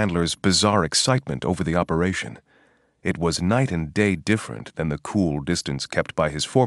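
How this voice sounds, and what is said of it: Usual voice. Nothing is said of it.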